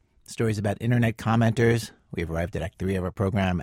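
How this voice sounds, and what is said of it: Creaky vocal fry voice. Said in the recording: “vocal fry in my voice”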